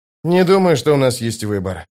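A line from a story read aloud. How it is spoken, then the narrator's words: Sighing. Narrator (Russian): вздохнул Остряк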